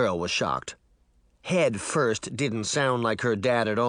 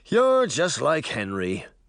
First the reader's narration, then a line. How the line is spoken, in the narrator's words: Mirror sighed